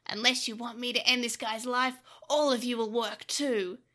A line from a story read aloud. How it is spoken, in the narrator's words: he said menacingly